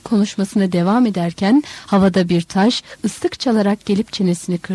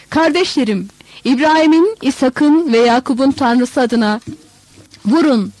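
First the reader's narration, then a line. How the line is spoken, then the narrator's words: Consumptive man shouting. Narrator (Turkish): diye bağırdı veremli Levili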